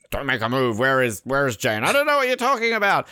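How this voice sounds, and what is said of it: Admiral Ackbar-like character voice. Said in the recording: “every impression I have sounds like Arnold Schwarzenegger. Yours is Admiral Akbar.”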